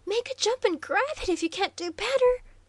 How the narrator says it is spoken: cried Waldo, intensely excited now that the crisis was at hand

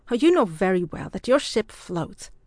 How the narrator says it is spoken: he retorted indignantly

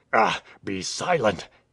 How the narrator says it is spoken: hissed out the traitor between his clenched teeth

